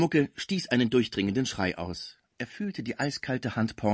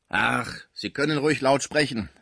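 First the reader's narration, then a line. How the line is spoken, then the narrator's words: Asthmatic heavy woman exclaiming. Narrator (German): rief die dicke und asthmatische Sauvage aus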